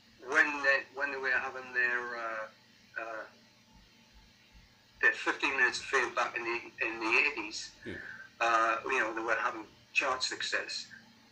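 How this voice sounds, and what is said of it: Sunderland English accent. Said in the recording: “a Sunderland accent or a Newcastle accent ... Yes, it's Sunderland.”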